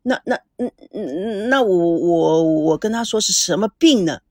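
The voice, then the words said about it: Stammering, stuttering speech. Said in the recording (Chinese): “吓得说话都磕巴”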